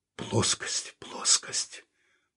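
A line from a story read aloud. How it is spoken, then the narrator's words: Muttering. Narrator (Russian): пробормотал он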